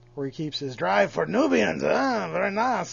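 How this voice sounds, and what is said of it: Watto impression. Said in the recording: “That was a pretty good Watto impression.”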